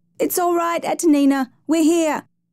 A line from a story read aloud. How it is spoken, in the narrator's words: Her weeping father, Massey, lunged forward shouting